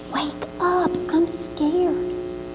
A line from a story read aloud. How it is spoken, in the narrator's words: he whispered